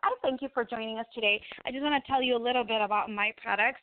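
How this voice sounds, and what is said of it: Spanish accent in English. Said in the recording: “my first language is Spanish. I'm sure you can hear my accent over the radio”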